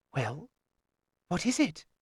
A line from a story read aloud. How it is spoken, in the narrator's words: she demanded in a whisper